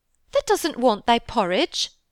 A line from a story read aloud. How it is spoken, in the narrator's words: Martha exclaimed incredulously